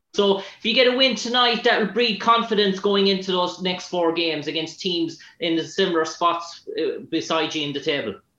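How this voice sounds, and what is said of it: Irish accent. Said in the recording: “Ireland. ... I like your accent. It's tough. ... I want to learn how to talk like that. ... I was too much listening to your accent.”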